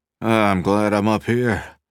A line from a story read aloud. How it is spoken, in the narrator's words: he panted to McAfee